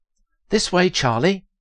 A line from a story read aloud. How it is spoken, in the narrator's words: Heather exclaimed, excitedly